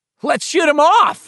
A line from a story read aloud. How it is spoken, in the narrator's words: Richie cried, nearly apoplectic in his joy